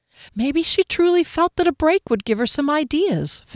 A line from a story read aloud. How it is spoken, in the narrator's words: Fennel pleaded